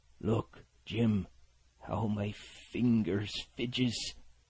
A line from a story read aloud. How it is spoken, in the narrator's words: continued, in the pleading tone